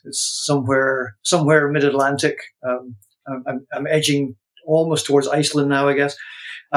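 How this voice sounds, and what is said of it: Scottish accent. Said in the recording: “I'm originally a transplant from Scotland, so that kind of explains my accent. ... It's my accent.”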